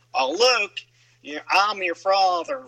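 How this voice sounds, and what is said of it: Put-on southern accent. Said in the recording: “or even a southern accent”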